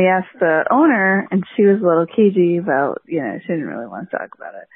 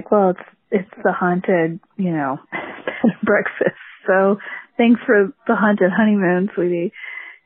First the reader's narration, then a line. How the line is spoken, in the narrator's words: he was laughing because he's like